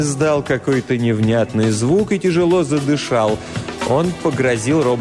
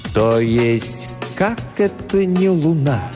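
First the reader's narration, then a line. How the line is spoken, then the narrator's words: Slow speech. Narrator (Russian): медленно произнес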